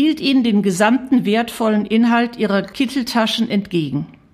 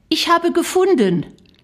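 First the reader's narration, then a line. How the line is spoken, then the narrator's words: Calling out. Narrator (German): rief Shari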